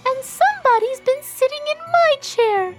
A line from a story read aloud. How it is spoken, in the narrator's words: squeaked the baby bear in his shrill little voice